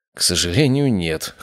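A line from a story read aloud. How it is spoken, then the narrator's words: Wry snort. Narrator (Russian): хмыкнул я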